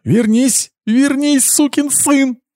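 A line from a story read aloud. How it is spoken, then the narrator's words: Girlish panicked shriek. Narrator (Russian): Завизжала она по-девичьи, понимая, что осталась совсем одна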